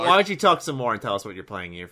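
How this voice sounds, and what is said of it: New York accent. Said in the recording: “New York accent ... that's just me when I normally speak. It must just come out when I talk fast.”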